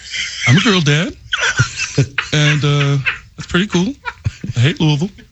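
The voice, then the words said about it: Dopey voice imitating another person. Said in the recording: “You do good impersonations ... Drew sounds so dopey.”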